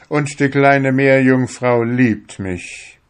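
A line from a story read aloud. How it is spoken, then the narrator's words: Calling out. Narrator (German): rief er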